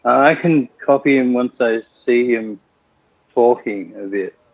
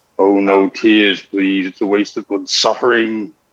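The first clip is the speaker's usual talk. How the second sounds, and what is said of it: Impression of Pinhead. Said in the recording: “I can do a few voices, ... one voice that comes to mind at the moment is Pinhead.”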